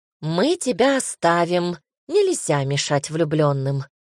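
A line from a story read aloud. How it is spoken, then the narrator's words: Laughing. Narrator (Russian): рассмеялась сестра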